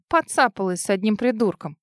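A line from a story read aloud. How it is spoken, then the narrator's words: Snorting. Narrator (Russian): фыркнула она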